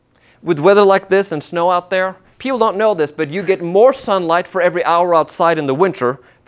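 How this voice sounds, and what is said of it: Norwegian accent. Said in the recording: “I grew up in Norway. Yes, that's where my accent is from.”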